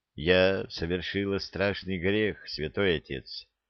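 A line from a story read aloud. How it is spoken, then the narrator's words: Quiet, tearful. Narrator (Russian): негромко сказала она, утирая слезы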